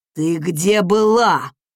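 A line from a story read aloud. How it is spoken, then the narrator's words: Furious growl, father. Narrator (Russian): рыкнул отец с горящими бешенством глазами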